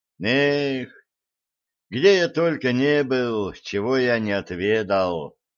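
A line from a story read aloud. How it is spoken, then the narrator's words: Nostalgic sigh. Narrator (Russian): Ностальгически вздохнул Блад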